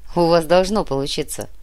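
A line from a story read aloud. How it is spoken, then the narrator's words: Snorting. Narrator (Russian): хмыкнул Матвей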